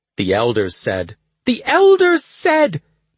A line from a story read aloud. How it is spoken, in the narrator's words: the Asha shouted